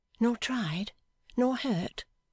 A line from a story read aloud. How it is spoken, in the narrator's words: she asked him anxiously